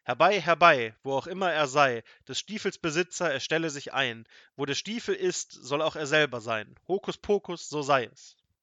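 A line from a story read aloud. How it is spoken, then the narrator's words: Thunderous shout. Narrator (German): rief er mit Donnerstimme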